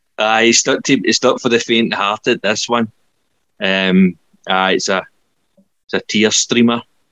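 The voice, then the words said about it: Choked-up, emotional voice. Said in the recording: “I'm getting choked up talking about it now.”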